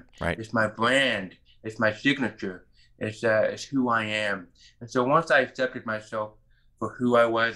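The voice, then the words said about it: Hearing loss accent, unique voice. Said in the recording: “My unique voice and my accent ... we may have a different accent”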